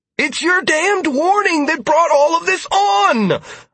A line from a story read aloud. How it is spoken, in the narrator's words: I exclaimed acidly